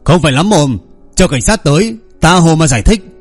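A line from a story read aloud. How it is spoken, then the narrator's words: Loud shout. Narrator (Vietnamese): Minh Lão Nghiêu lại quát lớn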